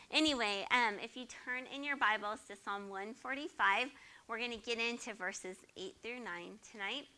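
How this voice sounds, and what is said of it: Voice cutting in and out. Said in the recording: “my voice just still keeps going in and out”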